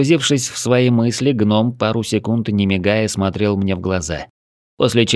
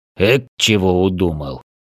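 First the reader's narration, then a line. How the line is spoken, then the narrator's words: Grumbling gnome. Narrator (Russian): Нахмурив лоб, проворчал гном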